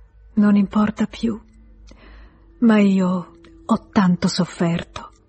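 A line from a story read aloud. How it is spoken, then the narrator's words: Sigh. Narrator (Italian): sospirò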